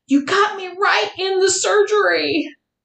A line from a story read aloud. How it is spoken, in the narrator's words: prompting me to yell out